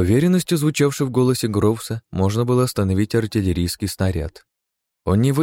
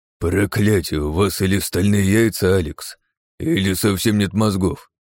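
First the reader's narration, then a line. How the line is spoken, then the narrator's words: Grumbling. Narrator (Russian): проворчал Гроус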